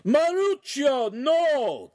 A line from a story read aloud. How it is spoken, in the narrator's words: the master shouted